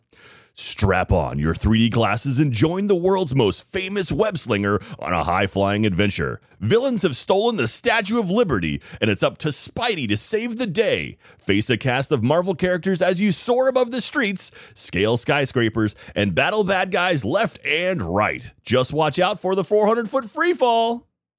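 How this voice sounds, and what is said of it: Big announcer commercial voice. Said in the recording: “do my big commercial voice.”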